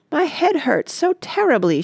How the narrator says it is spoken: wailed

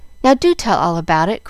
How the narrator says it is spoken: cried Jill, who was pining to know the whole story

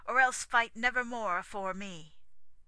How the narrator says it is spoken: he cried at parting

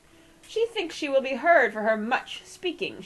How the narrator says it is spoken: she cried

